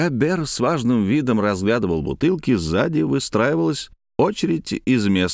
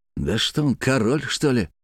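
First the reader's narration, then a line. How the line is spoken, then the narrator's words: Muttering. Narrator (Russian): бормотал кто-то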